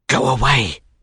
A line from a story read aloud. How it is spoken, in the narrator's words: he murmured